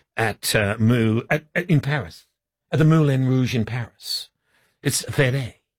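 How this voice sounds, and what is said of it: Put-on French accent. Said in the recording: “are you doing an Italian accent talking about the Moulin Rouge in Paris, which is in France? ... That's my French accent.”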